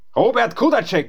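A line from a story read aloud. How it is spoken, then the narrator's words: Called out. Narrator (German): rief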